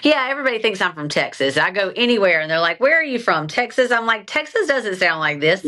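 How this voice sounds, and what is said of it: Southern South Carolina twang. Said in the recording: “Southern charm ... the twang ... I can hear it ... This is South Carolina ... has a real accent”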